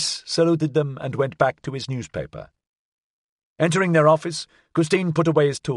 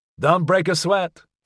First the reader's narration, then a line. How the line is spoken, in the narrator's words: Floyd said